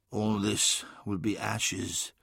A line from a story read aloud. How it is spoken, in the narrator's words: said sadly